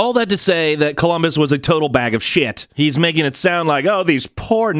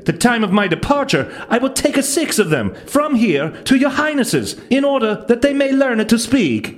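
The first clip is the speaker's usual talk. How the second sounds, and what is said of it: Bad put-on Italian accent. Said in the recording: “that's a horrible Italian accent.”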